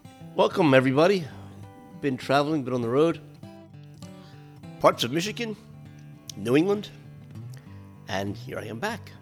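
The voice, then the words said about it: Congested voice, sounds like a cold. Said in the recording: “I got some kind of a bronchial cough thing happening, so if you sound like I've got a cold”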